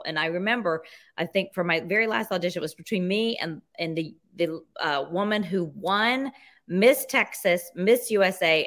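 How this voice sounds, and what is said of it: Mississippi accent. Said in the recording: “I'm from Mississippi and, you know, I have an accent, but not a Spanish one”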